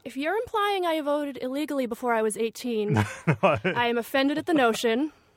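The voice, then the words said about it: Slight South Boston accent. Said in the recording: “I'm from Southie ... I'm lifelong South Boston. ... You do have a little bit of that accent.”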